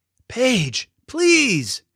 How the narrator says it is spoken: yelled Finn

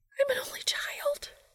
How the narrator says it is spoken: she whisper shouted

